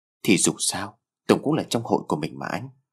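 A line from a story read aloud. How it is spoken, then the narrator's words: Sad gentle voice. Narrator (Vietnamese): Lan đôi mắt có vẻ hơi buồn bã, cô nói giọng nhỏ nhẹ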